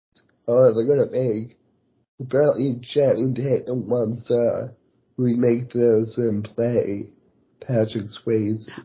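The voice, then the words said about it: Voice fading, losing voice. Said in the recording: “I'm losing my voice.”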